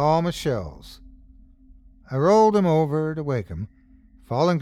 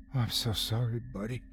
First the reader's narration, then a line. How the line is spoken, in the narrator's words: said quietly, trying to ease his fear